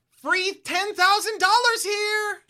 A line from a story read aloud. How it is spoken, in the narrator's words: You shout